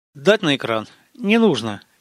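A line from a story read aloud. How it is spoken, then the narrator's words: Indifferent tone. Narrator (Russian): безразличным тоном ответил Гаспарян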